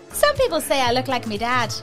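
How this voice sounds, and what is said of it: Put-on Irish accent. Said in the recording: “Is that an Irish accent? ... Yeah.”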